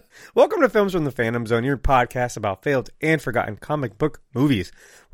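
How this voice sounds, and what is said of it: Voice sounds sick. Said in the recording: “my voice is a little... I've been kind of sick since... So I'm going to sound like this the whole time”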